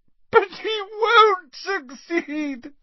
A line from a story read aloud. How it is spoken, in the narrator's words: sobbed Narcissa